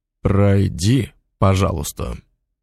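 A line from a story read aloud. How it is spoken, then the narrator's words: Barked through clenched teeth. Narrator (Russian): Сквозь зубы рявкнул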